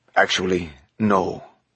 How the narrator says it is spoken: the Camerlengo said

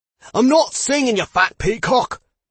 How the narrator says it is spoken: the man on the stage shouted back with a thick Scottish accent

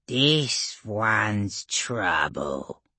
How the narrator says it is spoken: the orc shaman said, growling like a small hound around a larger caged predator

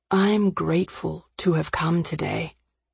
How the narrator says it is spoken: he said quietly, out of earshot of everyone else

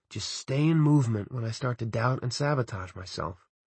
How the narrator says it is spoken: I muttered

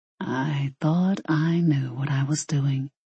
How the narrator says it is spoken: he murmured

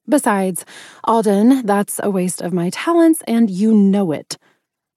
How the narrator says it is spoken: I snapped

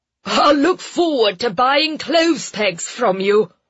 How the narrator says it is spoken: Lord Westrum called after her, chuckling

